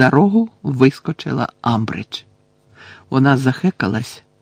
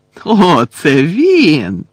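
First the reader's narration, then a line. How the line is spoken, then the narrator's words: Joyful exclamation. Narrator (Ukrainian): радісно вигукнула професорка, побачивши на підлозі Гаррі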